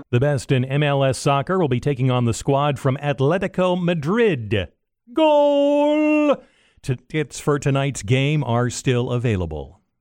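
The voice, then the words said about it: Soccer play-by-play announcer voice. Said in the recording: “that was your impression of a soccer play-by-play man”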